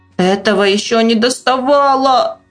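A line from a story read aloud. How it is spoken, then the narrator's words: Woman passenger moaning. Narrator (Russian): простонала пассажирка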